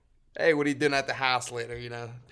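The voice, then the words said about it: Pittsburgh Yinz accent. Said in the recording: “I don't got that Yinz accent no more. I do, though. I do have, like, I can hear it a little bit when I talk, like, downtown house.”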